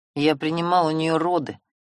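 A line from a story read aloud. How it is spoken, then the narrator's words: Angry. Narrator (Russian): зло дернувшись, сказал Семён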